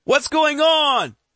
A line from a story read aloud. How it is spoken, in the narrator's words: Tom shouts with a stern tone to his voice